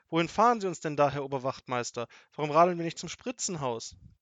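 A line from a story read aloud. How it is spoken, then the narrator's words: Grandmother calling. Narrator (German): rief Großmutter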